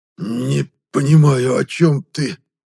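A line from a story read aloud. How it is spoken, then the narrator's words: Hoarse, injured wheeze. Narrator (Russian): прохрипел хозяин игорного дома, сплевывая розовую слюну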